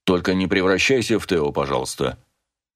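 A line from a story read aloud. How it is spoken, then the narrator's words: Father's cold voice. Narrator (Russian): холодно сказал отец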